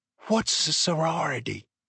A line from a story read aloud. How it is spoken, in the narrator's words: Kira whispered to her